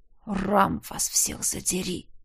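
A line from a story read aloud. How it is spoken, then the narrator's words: Whisper. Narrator (Russian): прошептал Тизар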